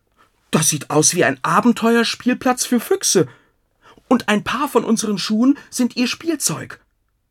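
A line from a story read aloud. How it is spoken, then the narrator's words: Excited shout. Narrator (German): Max aufgeregt rief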